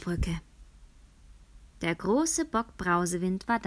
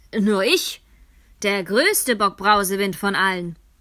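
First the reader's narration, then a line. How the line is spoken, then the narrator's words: Eldest brother calling out. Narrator (German): rief der älteste Bruder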